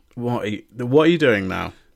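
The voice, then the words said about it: Disappointed, scolding parent-like tone. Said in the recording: “Sorry, I sounded like a disappointed parent then.”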